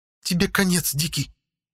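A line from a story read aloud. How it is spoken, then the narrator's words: Angry hiss. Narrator (Russian): зло прошипела Ягда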